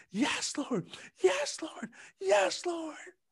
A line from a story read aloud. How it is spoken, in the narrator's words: I just kept screaming